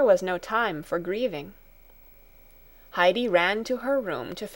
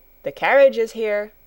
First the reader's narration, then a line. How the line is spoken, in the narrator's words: someone called out